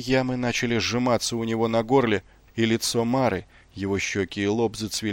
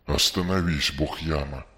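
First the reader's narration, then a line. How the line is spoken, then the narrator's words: Breathless gasp. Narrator (Russian): с трудом выдохнул он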